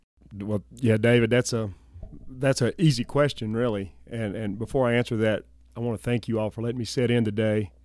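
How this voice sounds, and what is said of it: Southern American accent. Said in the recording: “Your listeners can probably tell from my accent. I'm originally from the South.”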